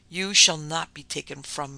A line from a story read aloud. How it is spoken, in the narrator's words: he said